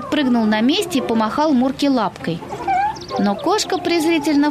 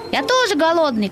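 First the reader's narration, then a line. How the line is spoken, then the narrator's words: Shout. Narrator (Russian): крикнул Пухлик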